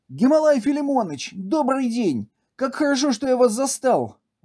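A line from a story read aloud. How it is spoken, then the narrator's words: Exclaiming. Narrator (Russian): воскликнул Зай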